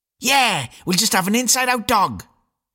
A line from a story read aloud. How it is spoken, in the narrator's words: squealed William mischievously